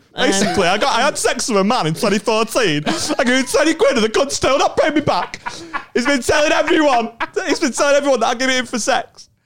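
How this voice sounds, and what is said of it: Bad impression of a Hull accent. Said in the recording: “Not my voice or accent. ... doing a bad impression of Hull.”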